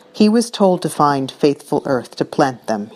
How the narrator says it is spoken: he says bitterly

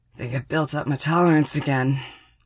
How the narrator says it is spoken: wheezes

